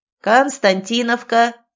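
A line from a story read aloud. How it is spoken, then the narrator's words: Booming announcement. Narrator (Russian): трубным голосом возвестила кондукторша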